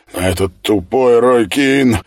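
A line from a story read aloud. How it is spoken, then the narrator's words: Loud sob. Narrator (Russian): Оливерио громко всхлипнул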